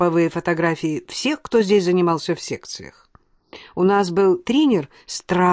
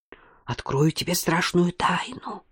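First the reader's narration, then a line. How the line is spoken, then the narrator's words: Conspiratorial whisper. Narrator (Russian): перешла на заговорщицкий шепот Алена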